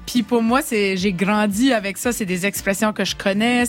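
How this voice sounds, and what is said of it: Acadian chiac French accent. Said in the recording (French): “le chiac. C'est euh, c'est mon parler, c'est mon accent ... mon accent qui est quand même différente de, de, de ce qu'on est peut-être habitué d'entendre”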